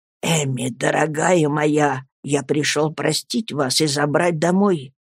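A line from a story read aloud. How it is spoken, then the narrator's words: Whisper. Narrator (Russian): шептал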